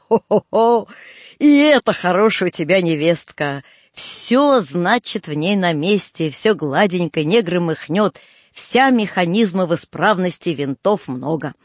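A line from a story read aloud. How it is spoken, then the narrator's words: Thin voice, then loud bass laughter. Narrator (Russian): проговорил он тонким голоском и тотчас вдруг захохотал и продолжал громко басом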